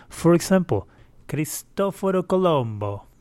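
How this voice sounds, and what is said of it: Put-on Italian accent. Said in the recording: “That's my best um, Italian accent.”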